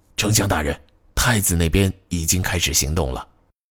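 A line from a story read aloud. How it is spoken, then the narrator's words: Quiet soldier's report. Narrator (Chinese): 士兵小声报告说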